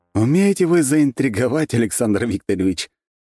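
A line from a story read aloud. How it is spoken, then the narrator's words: Laughing. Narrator (Russian): рассмеялся я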